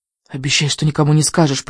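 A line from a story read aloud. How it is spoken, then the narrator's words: Whisper. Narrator (Russian): прошептала она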